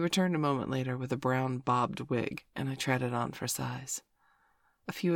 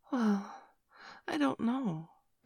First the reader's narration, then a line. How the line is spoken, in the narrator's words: I replied hesitantly